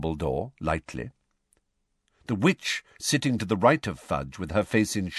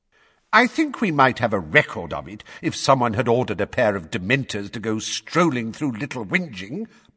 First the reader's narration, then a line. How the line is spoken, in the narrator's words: barked Fudge